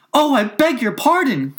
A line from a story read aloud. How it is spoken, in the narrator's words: cried Alice again